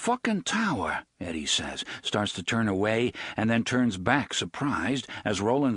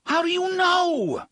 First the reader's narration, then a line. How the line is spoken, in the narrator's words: Eddie screams at him in sudden frustration